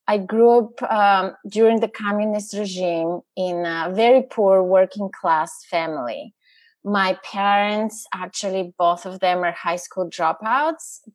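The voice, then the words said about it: Bulgarian accent. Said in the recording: “As you can tell from my accent, I'm not from around here... Originally, I'm from Bulgaria.”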